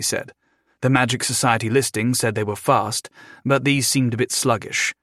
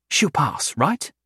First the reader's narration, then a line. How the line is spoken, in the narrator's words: Belinda asked nervously